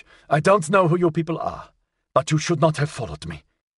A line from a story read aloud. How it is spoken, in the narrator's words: He replied in English